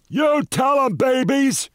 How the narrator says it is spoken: He shouted down

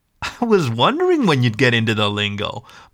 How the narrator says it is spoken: Mike laughed

